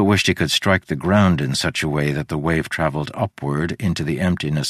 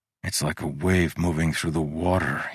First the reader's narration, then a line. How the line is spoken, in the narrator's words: he muttered